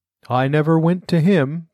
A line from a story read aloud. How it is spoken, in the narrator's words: the Mock Turtle said with a sigh